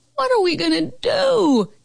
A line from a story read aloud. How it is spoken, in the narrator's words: Carol Costa howled at rehearsal